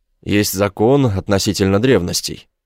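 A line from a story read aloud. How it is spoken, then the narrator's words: Tense voice. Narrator (Russian): Бертин сказал напряженным голосом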